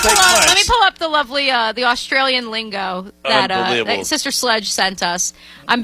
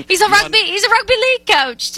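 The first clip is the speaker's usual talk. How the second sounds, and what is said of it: Put-on British accent. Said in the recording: “now I'm doing a British accent. That's not awesome.”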